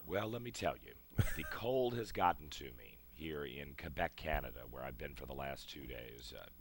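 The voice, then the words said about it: Hoarse voice. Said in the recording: “you sound a little a hoarse there”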